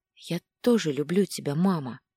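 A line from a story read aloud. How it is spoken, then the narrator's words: Quiet whisper. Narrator (Russian): Прошептала тихо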